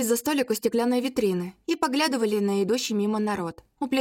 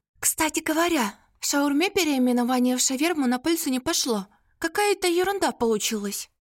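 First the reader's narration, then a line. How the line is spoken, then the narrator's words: Confidential whisper. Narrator (Russian): доверительно нашептала мне Ирка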